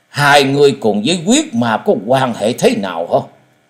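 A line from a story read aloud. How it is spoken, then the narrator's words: Fierce voice. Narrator (Vietnamese): Tan hồn thái tuế với giọng hung dữ nói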